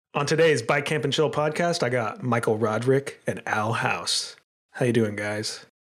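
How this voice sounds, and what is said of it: Put-on podcast host voice. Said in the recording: “That's my podcast voice ... And the voice works.”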